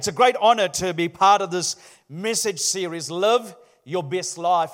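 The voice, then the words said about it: Sri Lankan New Zealand accent. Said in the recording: “my Sri Lankan Kiwi heavenly accent ... can you understand my accent? Do you need subtitles?”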